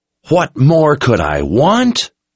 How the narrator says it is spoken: Anne screamed

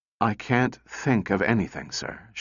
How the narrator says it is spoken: she replied wearily

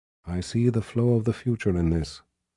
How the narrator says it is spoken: Shota said in a quiet voice meant for him alone

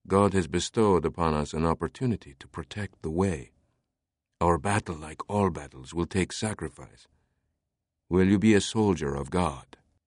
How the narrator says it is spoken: whispered

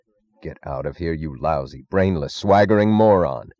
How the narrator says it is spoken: snarled Dr

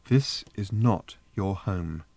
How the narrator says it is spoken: said Trillian, still keeping her voice calm

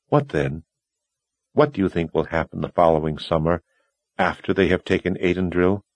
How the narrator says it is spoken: Kaelin asked in a soft voice

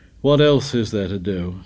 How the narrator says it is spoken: Nothing replied

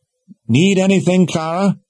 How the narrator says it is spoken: she called out

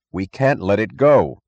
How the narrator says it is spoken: cried

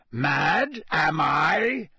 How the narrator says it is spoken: said Moody, his voice rising uncontrollably

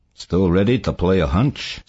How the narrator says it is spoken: Saul asked calmly

